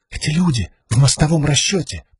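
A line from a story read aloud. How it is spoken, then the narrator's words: Whispered. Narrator (Russian): прошептала Сил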